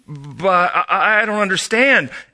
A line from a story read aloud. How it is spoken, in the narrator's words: Aiden stammered